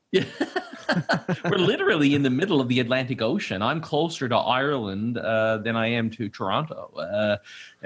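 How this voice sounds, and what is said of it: Newfoundland accent. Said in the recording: “I guess that explains the accent a little bit then ... Newfoundland”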